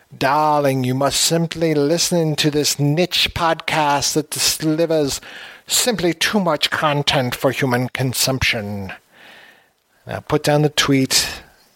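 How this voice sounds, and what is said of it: Bad impersonation of a glamorous actress. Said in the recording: “bad impersonations of Joan Crawford”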